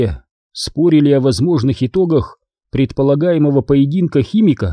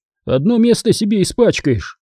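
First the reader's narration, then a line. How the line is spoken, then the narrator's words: Laughing. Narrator (Russian): Он засмеялся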